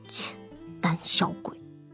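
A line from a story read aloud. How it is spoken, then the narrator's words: Gloomy muttering. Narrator (Chinese): 穆小闷闷的 嘀咕道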